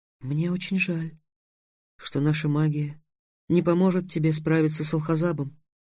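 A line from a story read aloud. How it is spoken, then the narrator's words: Sad. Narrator (Russian): грустно сказала русалка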